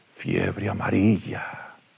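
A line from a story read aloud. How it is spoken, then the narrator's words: Shaken whisper. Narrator (Spanish): Entre ingentes esfuerzos por recuperarse de la impresión, Pereira susurró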